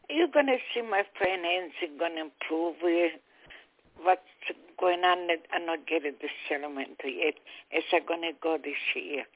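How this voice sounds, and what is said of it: Italian accent. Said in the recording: “beautiful Italian accent of yours”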